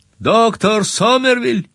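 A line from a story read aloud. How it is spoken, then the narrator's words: Loud call. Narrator (Russian): Позвал я достаточно громко для того, чтобы он мог меня услышать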